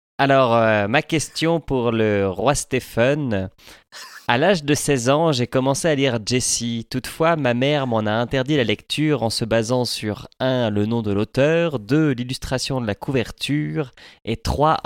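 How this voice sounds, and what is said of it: Imitates another person's accented voice. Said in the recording (French): “imitation de François Courtis ... tu as l'accent”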